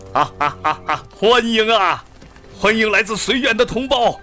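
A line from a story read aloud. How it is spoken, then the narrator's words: Loud, booming officer. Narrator (Chinese): 一位身材高大魁梧的军官……大声地说着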